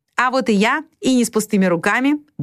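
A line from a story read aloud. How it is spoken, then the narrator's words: Cheerful. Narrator (Russian): бодро проговорила она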